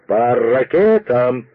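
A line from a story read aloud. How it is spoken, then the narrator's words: Ringing metallic shout. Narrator (Russian): крикнул он звучным металлическим голосом, который, подобно колоколу, перекрыл глухой неумолчный шум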